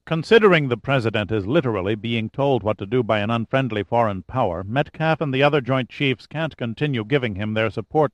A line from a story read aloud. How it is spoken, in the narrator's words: said Mercier